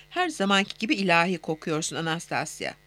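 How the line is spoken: Plain. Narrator (Turkish): dedi

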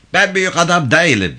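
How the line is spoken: Possessed person shouting. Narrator (Turkish): diye bağırdı cinli Mırto

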